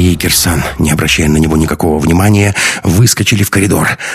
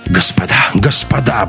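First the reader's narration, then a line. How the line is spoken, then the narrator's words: Frightened mutter. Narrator (Russian): бормотал белый как снег Беленин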